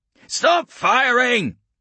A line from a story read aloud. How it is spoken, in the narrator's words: he heard one man screaming